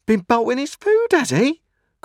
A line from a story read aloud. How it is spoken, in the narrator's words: cried my sister